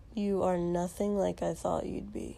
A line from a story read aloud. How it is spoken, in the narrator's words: Shoto said flatly